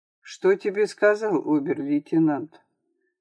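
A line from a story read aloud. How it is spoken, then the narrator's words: Heavy-sighing question. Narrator (Russian): Тяжело вздохнув, Саша спросил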